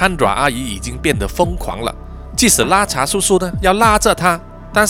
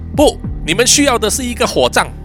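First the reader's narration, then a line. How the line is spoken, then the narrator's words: Loud retort. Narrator (Chinese): 阿米塔大声的反击说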